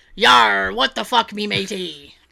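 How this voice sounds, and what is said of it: Pirate voice. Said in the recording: “Not as good as my pirate.”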